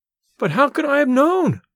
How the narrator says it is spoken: I cried

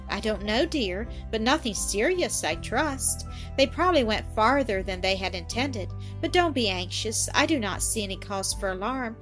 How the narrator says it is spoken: the cheerful, kindly answer

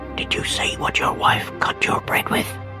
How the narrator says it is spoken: she asked in a low whisper

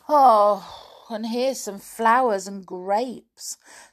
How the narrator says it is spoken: sighed Binkle

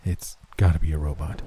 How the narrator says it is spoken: said quietly

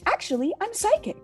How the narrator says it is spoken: she exclaimed

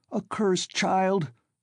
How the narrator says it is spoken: Svidrigaïlov cried

